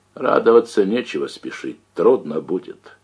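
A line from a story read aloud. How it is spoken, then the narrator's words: Dry. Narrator (Russian): сухо отозвался Кондрат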